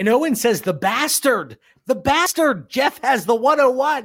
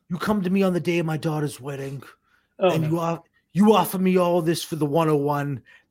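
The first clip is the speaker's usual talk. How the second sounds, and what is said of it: Godfather-style mob boss voice. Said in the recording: “that is my godfather impression”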